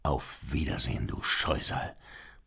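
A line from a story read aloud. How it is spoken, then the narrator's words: Murmured. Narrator (German): murmelte Beethoven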